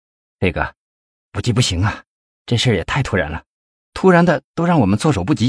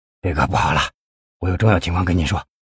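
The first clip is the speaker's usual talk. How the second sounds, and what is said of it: Speaking quietly, hushed voice. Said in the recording (Chinese): “小声的说”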